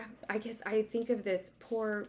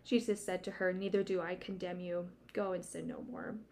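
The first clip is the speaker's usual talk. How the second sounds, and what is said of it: Emotional voice while reading aloud. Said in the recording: “I'm getting emotional. ... I can tell when your voice...”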